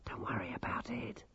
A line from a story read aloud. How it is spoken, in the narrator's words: hissed Dorcas